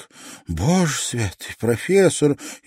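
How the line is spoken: Frightened exclamation. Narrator (Russian): испуганно воскликнула она

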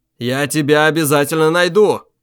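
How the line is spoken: Shout into corridor. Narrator (Russian): крикнул в темный коридор

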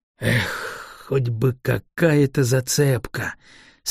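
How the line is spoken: Despairing drawl. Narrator (Russian): с отчаянием протянул Шуршан

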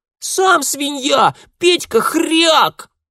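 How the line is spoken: Girl yelling. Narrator (Russian): вопила девчонка

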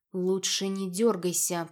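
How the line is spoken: Male voice hissing in ear. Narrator (Russian): прошипел мне на ухо мужской голос

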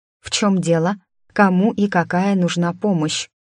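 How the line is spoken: Dazed mumble. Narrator (Russian): пробормотала я, наконец приходя в себя

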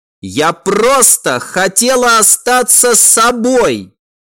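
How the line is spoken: Loud. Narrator (Russian): Она неожиданно резко громко произнесла

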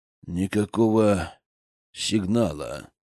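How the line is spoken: Grumbling man. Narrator (Russian): ворчал мужчина из небожителей

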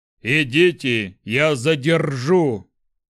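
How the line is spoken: Growled. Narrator (Russian): прорычал Шухрак

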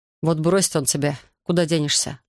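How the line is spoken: Plain. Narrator (Russian): спросил я

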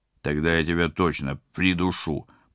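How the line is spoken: Growled. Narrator (Russian): прорычал пилот

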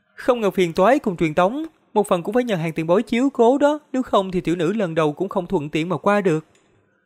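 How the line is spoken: Smiling. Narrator (Vietnamese): mỉm cười nói

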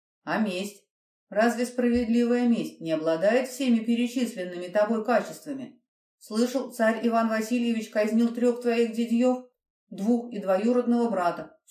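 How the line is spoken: Dry correction. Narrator (Russian): сухо поправил монах капитана

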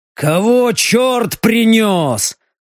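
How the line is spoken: Growled. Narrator (Russian): рыкнул он

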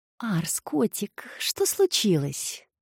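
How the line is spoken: Unfamiliar purring voice interrupting. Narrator (Russian): Чужой мурлыкающий голос вклинился в их беседу

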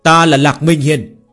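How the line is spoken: Youth, loud shout. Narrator (Vietnamese): Thiếu niên cao giọng quát

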